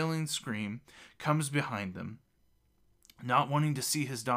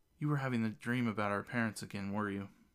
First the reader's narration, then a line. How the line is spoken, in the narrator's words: Tatiana asks kindly